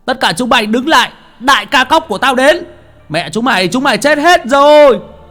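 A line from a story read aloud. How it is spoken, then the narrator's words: Loud shout. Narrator (Vietnamese): một tiếng hét vang lên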